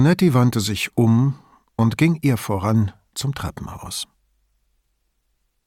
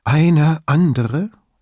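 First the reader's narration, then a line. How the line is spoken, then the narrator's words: Trembling voice. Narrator (German): fragte sie mit zitternder Stimme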